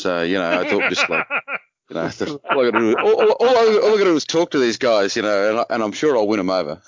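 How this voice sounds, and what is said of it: Non-American accent. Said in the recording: “normally my accent, you know, bedazzles most Americans”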